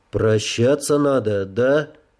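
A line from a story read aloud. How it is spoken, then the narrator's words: Muffled, after a sigh. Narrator (Russian): порывисто вздохнул и глухо произнес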